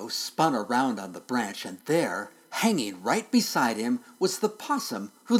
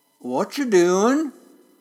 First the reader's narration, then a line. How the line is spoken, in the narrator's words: someone called out in a long, slow drawl